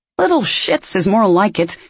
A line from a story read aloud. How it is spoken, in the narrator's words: he grumbled